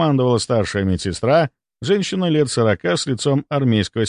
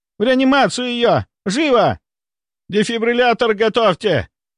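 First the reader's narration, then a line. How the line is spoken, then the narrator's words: Shouting. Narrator (Russian): кричал кто-то еще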